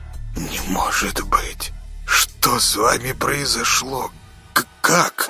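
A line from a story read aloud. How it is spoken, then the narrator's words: Shocked whisper. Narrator (Russian): шумно вдохнул носом, прошептал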